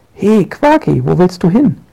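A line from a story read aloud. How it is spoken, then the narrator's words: Calling out. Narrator (German): ruft Frau Minul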